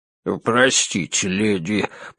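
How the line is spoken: Mumbled. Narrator (Russian): пробормотал он

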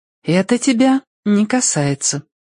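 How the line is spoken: Calm. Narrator (Russian): спокойно сказала она

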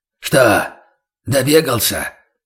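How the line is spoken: Hoarse voice from outside. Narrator (Russian): хрипло произнес преследователь снаружи

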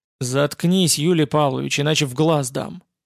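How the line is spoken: Flat colorless interruption. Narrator (Russian): Бесцветным голосом прервала его Лидия Аркадьевна Ковтун

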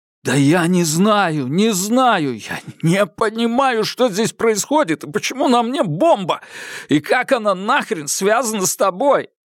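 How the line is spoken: Girl sobbing. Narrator (Russian): Девушка зарыдала

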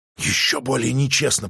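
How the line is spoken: Whisper. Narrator (Russian): прошептал

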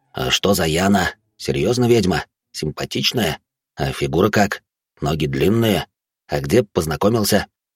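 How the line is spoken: Quiet questions. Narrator (Russian): задавал их тихо

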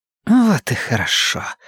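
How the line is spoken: Breathed out woman. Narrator (Russian): выдохнула женщина

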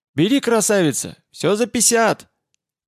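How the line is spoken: Loud, harsh, unpleasant voice. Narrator (Russian): громко сообщила она неприятным резким голосом

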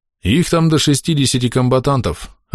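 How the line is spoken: Indifferent droning mumble. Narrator (Russian): равнодушным голосом бубнил ротмистр

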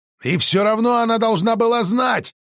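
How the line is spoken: Shouting out. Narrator (Russian): выкрикнул

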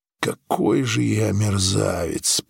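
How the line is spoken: Groaning. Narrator (Russian): простонал

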